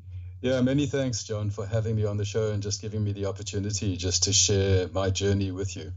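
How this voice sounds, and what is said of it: South African accent. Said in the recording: “you actually sound a lot like my dad. My dad still has the South African accent.”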